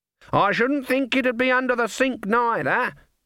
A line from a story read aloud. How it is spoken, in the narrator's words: she shouted